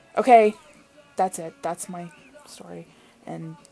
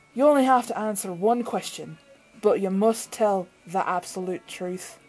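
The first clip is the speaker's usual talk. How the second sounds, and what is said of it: Terrible put-on accent. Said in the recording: “terrible accent”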